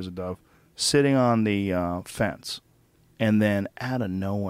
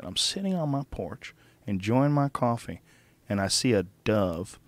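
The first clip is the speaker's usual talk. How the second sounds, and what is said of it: Imitated Georgia accent. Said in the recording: “He had this like sort of Georgia accent.”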